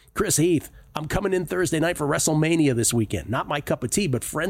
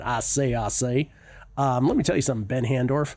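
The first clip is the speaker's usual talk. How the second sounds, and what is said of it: Southern Foghorn Leghorn impression. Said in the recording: “your southern accent is becoming more and more like Foghorn Leghorn ... It is absolutely based on Foghorn Leghorn ... It's completely a Foghorn Leghorn. I'm actually doing Hootie Johnson as Foghorn Leghorn.”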